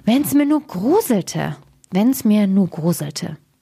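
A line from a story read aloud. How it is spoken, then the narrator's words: Very loud. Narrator (German): sprach wieder ganz laut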